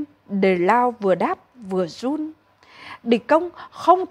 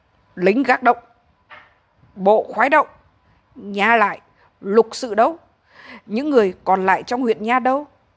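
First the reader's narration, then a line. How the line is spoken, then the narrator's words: Angry shouted demand. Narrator (Vietnamese): Ông dậm chân xuống đất và quát hỏi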